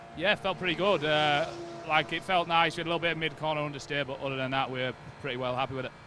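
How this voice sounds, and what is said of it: British regional accent. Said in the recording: “You will have worked out by his accent that he's not from round here ... Comes from one of the damper parts of the UK, which is why he's got that lovely voice like that.”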